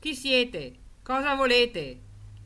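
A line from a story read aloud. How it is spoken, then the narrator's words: Repeated shouting. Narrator (Italian): urlare alcune volte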